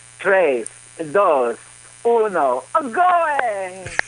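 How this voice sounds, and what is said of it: Cartoonish Italian character voice. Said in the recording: “Is that your Waluigi impression? ... It was Italian.”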